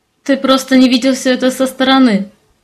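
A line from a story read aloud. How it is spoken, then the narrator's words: Barely speaking, then laughing. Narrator (Russian): Еле проговорила я и все-таки рассмеялась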